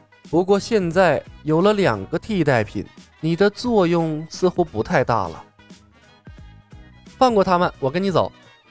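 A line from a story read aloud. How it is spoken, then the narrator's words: Soft, gentle. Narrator (Chinese): 拜月教主柔声说道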